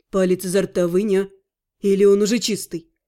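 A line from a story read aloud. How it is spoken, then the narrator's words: Smirking groom. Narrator (Russian): Хмыкнул жених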